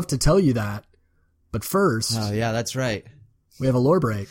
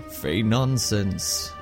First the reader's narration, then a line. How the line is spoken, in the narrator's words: the cartographer chuckled